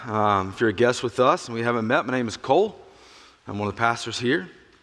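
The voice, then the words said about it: Slightly raspy voice. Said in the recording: “my voice is a little raspy. ... I am not recording a Johnny Cash cover album”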